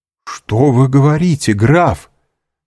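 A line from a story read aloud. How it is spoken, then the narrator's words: Beside himself, exclaiming. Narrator (Russian): вне себя воскликнул Максимилиан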